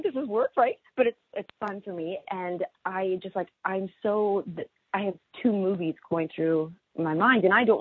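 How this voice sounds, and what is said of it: Strained, failing voice with a quiver. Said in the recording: “I'm already losing my voice because I've been talking so much, but now I can actually feel a quiver.”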